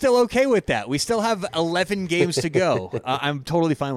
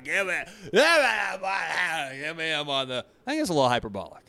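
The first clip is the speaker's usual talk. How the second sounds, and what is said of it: Impression of co-host. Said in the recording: “Is that a good impression of you? I've been doing more impressions.”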